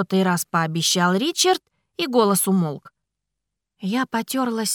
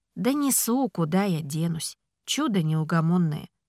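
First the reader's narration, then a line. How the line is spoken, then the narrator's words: Tender whisper. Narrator (Russian): прошептал Ричард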